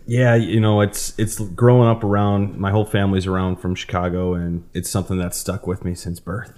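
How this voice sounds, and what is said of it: Chicago accent. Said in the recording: “You kind of have more of that Chicago accent, though”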